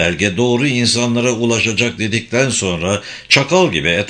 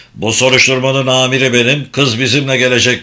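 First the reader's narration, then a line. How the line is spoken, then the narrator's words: Roared. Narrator (Turkish): diye kükredi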